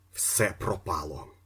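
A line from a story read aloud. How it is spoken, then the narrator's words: Muttered. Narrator (Ukrainian): пробурмотів він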